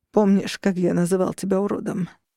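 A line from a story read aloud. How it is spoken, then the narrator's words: Laughter turning hoarse. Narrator (Russian): Его смех в конце стал хриплым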